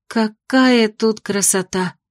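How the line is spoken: Healer's admiring sigh. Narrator (Russian): вздохнула целительница

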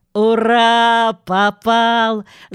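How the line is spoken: Loud laughter. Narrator (Russian): захохотал Джонатан

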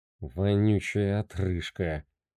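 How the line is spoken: Mutter. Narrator (Russian): пробормотал бармен

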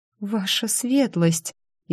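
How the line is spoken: Frightened babbling. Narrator (Russian): испуганно залепетал он

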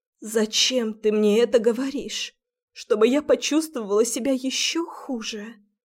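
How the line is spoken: Muffled and hoarse. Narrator (Russian): Глухо и хрипло

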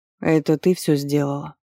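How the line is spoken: Exhausted hoarse voice. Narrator (Russian): спросил Вардер до неузнаваемости уставшим голосом, совсем охрипшим

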